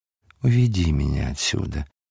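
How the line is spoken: Tender whisper. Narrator (Russian): шептала она ласково

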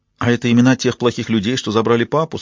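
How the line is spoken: Plain question. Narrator (Russian): спросила сестра

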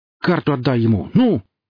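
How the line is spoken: Barked command. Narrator (Russian): гаркнул Гриф

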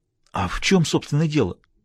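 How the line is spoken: Anxious question. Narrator (Russian): взволнованно поинтересовался Бассетт

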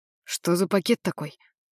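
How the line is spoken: Plain question. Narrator (Russian): спросил Джамаль

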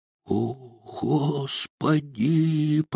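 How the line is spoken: Old man muttering. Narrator (Russian): пробормотал какой-то старик

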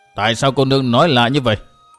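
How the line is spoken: Cold old man's question. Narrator (Vietnamese): Lão đạo sĩ bên tả lạnh lùng hỏi

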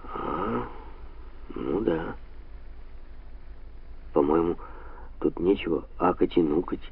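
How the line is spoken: Gloomy. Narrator (Russian): мрачно заметил Лело

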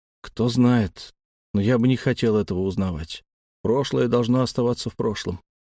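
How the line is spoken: Grumbled. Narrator (Russian): буркнул я

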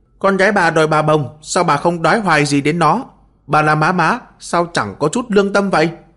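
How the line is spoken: Boy shouting accusingly. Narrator (Vietnamese): thằng nhỏ người ốm nhách nước da vàng ủng từ trong đám đông bước ra, trỏ tay vào Miêu phu nhân la lên

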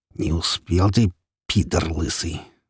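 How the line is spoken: Angry, through teeth. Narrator (Russian): зло процедил сквозь зубы искатель

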